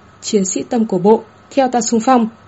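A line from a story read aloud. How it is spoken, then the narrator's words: Loud shouted command. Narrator (Vietnamese): Tháp Mạc dùng tiếng nam cương cao giọng quát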